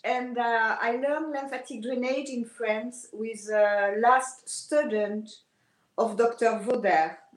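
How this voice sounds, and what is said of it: French accent. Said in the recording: “I am French, as my accent can tell you. And sorry for the accent.”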